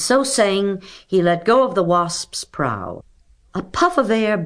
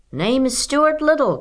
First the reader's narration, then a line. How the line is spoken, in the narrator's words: called Stuart at the top of his lungs